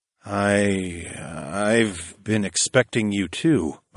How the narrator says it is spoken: I muttered

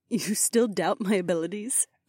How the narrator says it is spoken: the beautiful priestess asked with a slight giggle

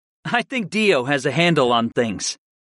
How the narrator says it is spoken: I chuckled

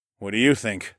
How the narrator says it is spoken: I grumbled as my muscles strained

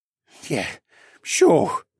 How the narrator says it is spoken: Barrington said in a hoarse voice

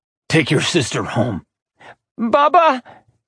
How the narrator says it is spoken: Tanis sobbed

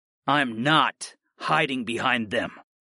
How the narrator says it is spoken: I growled

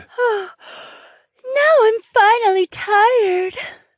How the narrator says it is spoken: Trina said with a yawn

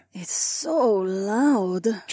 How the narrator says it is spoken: Jessamine murmured

